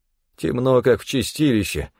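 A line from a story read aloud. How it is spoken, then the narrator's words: Grumble. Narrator (Russian): проворчал один из них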